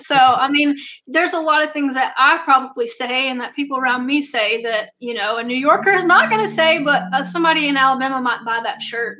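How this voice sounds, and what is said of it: Thick Southern American accent. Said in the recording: “I have a really thick Southern accent.”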